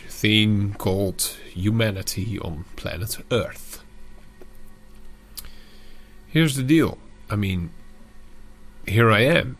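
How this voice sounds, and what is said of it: Dutch accent in English. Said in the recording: “I'm Dutch, as you undoubtedly will be able to hear by my accent”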